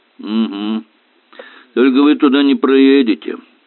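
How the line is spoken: Gloomy announcement. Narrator (Russian): мрачно объявил полицейский

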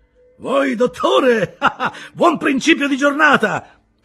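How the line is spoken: Wide-awake, cheerful shout. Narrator (Italian): gridò Silver completamente sveglio e raggiante di buon umore all'istante

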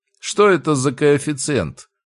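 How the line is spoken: Teacher asking. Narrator (Russian): поинтересовался препод

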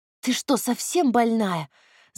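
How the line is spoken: Hissing. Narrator (Russian): зашипела на Надю Юля

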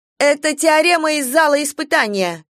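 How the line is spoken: Shouted. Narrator (Russian): крикнула она

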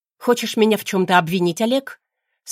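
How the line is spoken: Steely, curt. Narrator (Russian): Стальным тоном бросаю

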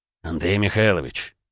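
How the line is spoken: Quiet attention cough. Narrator (Russian): тихонько кашлянул Дерешев

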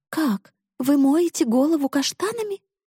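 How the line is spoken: Exclamation. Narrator (Russian): И Нэнси воскликнула

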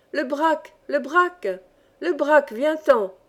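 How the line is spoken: Exclaimed, regaining composure. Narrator (French): Grand Gibus, le premier, reprit un peu son sang-froid, s'exclamant

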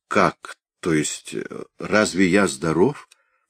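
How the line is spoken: Stammering, faltering. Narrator (Russian): Ганс Кастерп, заикаясь, пролепетал

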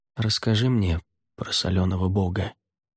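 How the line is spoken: Quiet request. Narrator (Russian): тихо попросил

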